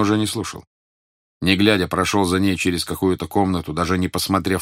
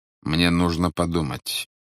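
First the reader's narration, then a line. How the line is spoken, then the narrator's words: Even-toned reply. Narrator (Russian): ровным голосом ответил Грин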